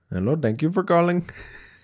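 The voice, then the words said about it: Imitated Indian call-center accent. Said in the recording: “The cell phone customer service man from India.”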